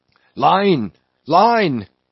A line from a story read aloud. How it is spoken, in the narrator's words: cried Queequeg